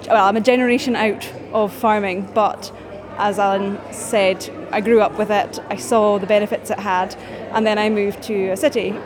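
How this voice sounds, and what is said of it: Orkney Scottish accent. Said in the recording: “You might tell by my accent, I'm from Orkney originally”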